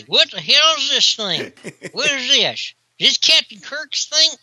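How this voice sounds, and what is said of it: Put-on Southern US accent. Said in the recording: “I'm from the South, so I can do that accent without people thinking I'm making fun”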